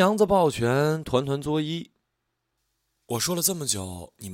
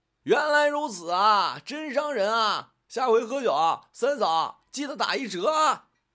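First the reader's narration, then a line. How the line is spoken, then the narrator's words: Shout. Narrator (Chinese): 有人喊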